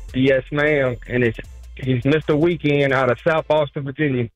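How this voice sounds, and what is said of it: Strong American country accent. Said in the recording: “You have a very strong country accent.”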